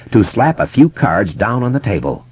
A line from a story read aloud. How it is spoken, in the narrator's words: Kasprak had said grimly